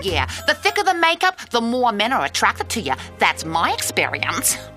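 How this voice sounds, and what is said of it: Exaggerated New York accent. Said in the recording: “sounds like a mix of Molly and Meowth, like full on, like ridiculous New York accent”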